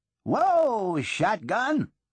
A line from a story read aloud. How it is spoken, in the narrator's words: bellowed